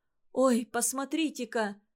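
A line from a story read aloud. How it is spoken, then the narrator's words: Startled exclamation. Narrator (Russian): вскрикнула Лина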